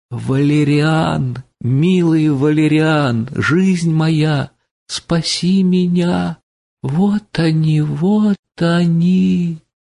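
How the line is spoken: Delirious plaintive piercing scream. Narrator (Russian): в бреду, и вдруг закричала жалобным и пронзительным голосом

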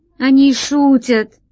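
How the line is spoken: Grandmother exclaiming. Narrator (Russian): воскликнула бабушка

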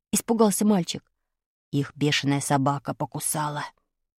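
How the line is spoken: Whispering. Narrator (Russian): прошептал Ромка

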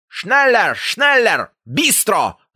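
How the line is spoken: Shouting. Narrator (Russian): закричал фашист

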